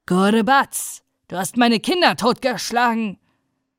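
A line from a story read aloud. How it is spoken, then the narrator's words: Terrifying roar. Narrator (German): brüllte mit furchterregender Stimme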